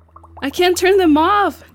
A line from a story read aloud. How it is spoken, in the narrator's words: Greta yelled